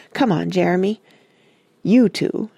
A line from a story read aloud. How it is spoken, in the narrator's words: she snapped at our cousins